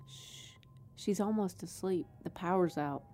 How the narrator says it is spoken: Audrey whispers

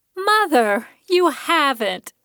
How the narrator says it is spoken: she cried

